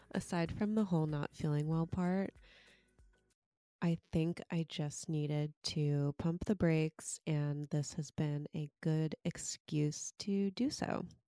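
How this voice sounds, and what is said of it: Congested, stuffy nasal voice. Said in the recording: “I am your sick host ... You can probably hear in my voice that I'm super congested.”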